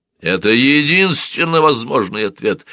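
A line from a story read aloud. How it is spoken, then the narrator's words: Echoing shout. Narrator (Russian): Он кричал на нее, и его голос эхом отдавался под серебряным потолком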